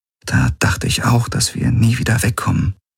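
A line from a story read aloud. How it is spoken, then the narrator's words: Quiet. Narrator (German): sagte sie leise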